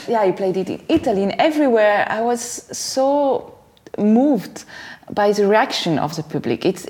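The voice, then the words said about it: French accent in English. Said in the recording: “when you're French, you do that with a French accent on both languages ... We love the French accent. ... It's terrible. That's how it is. We cannot help it.”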